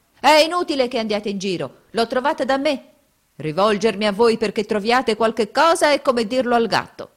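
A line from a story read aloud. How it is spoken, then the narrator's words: Shouted. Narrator (Italian): scoprendo di star sopra la giacca, gridava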